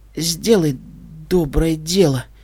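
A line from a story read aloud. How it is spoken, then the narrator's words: Faint whisper, losing consciousness. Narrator (Russian): прошептала единорожка, чувствуя, как проваливается в пропасть беспамятства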